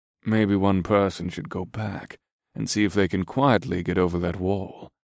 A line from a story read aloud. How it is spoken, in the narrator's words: Scourge commented in a steady voice